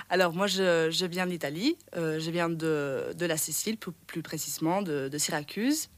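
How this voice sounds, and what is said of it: Pleasant foreign accent. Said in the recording (French): “tu as un super bel accent”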